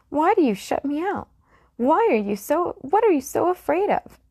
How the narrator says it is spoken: cried

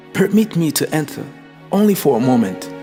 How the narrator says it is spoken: He started pleading

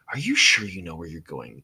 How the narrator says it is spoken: Ino asked him in a hushed tone

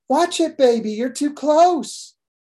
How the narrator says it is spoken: cried out

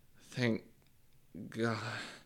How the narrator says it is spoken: moan out

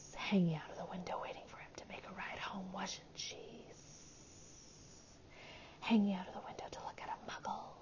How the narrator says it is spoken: said Gaunt quietly

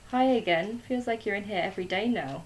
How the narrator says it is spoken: said with a chuckle

